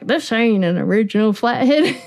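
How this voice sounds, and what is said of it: Put-on southern accent. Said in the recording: “have a southern funny. accent”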